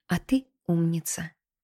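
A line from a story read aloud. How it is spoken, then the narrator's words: Whisper. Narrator (Russian): шепнула она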